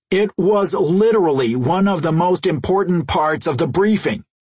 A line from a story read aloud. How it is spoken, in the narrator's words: Jason snapped